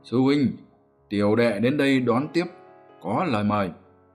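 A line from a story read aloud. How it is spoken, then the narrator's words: Loud call. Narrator (Vietnamese): Đà quái lớn tiếng gọi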